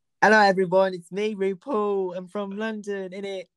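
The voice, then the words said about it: Bad fake British accent. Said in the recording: “shitty impersonation of the British accent.”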